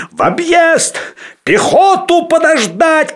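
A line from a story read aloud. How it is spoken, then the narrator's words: Shout. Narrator (Russian): кричал он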